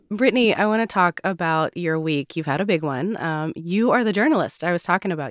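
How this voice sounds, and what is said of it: Croaky, hoarse voice. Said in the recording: “I sound like a frog.”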